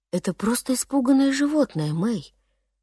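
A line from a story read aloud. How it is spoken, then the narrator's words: Father, softly. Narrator (Russian): мягко произнес папа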